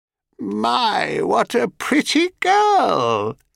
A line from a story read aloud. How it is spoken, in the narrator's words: croaked the old woman, slightly overdoing the cracked and cackling voice of a miserable crone